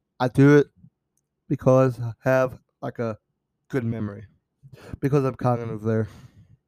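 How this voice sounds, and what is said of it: Bad Donald Trump impression. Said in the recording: “bad Trump impression.”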